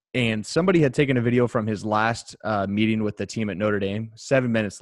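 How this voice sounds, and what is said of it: Usual voice. Nothing is said of it.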